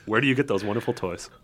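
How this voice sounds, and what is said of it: Imitates another person's voice. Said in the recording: “that was an impression ... Jack Nicholson, circa 1989. Rocking that Joker”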